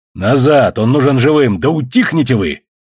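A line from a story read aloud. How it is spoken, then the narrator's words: Barked order. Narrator (Russian): рявкнул Костоправ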